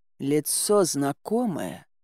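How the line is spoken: Muttered. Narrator (Russian): пробормотал Кощей

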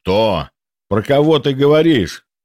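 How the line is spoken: Growling. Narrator (Russian): прорычал Гвидон

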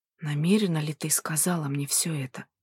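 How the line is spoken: Whisper. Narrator (Russian): прошептал

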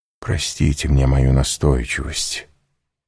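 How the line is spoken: Soft continuation. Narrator (Russian): мягко продолжал Вильфор

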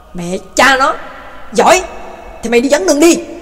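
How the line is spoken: Furious shout. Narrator (Vietnamese): Tây Mễ điên tiết quát lên

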